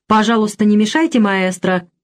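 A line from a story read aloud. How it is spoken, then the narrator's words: Polite but stern request. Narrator (Russian): вежливо, но строго попросил Алоиз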